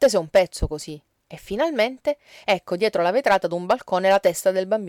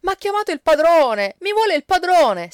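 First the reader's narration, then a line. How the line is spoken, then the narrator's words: Shrieking while being spanked. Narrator (Italian): strillava Tanotto tra le sculacciate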